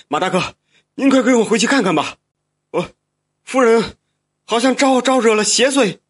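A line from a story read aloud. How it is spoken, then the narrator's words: Hurried. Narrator (Chinese): 这管家急忙说道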